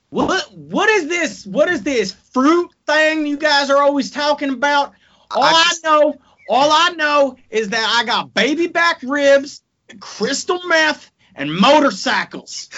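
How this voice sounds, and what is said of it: Put-on Texan accent. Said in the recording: “can you say what is this fruit in your Texan accent?”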